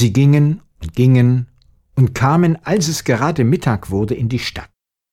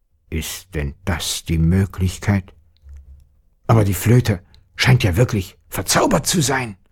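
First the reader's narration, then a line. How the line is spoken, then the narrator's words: Father's gruff muttering. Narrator (German): brummte der Vater in seinen Bart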